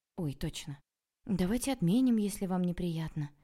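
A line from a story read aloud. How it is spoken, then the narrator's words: Sorrowful sigh. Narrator (Russian): горестно вздохнула я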